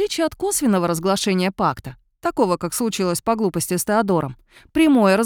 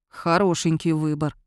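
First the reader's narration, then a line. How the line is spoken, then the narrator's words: Gloomy grumbling. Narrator (Russian): мрачно поворчал Йован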